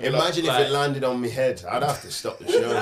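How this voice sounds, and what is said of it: Put-on mixed Scottish accent. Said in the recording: “What accent was that? ... Amalgamation of ... Many Scottish.”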